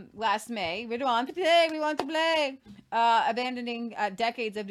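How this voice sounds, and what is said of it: Usual voice. Nothing is said of it.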